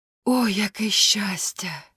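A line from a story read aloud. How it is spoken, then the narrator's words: Duckling sighing. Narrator (Ukrainian): зітхнуло каченя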